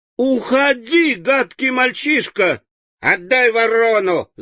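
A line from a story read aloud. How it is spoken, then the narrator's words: Whining. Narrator (Russian): захныкал Джимми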